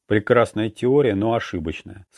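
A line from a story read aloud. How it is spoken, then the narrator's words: Plain. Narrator (Russian): сказал Манки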